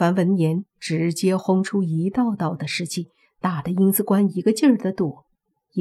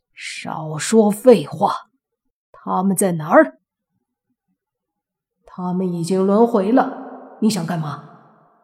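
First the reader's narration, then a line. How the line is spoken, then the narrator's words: Plain. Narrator (Chinese): 阴司官说道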